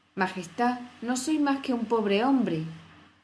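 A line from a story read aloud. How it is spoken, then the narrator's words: Trembling voice. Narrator (Spanish): comenzó a decir el sombrerero con voz temblorosa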